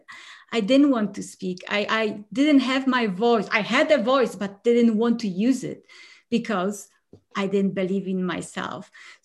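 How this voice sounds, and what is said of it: Polish accent. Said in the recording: “I'm originally from Poland. No, this accent is not from Colorado”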